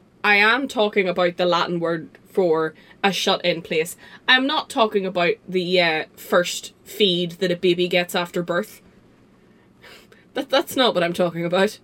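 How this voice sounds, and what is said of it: Northern Irish accent. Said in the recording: “that's just the Northern Irishness ... in my accent”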